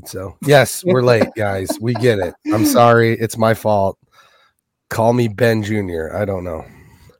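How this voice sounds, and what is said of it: Voice strained from a cold. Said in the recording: “If you can hear my voice, I'm still struggling with cold ... My voice is tolerable ... so I don't have to try and talk loud”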